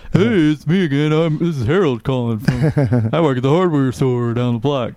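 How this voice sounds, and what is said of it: Put-on character voice. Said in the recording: “Harold impersonations ... pretend to be other people”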